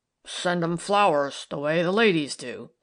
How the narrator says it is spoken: sneered Tom

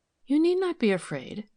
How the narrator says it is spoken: said Milly kindly

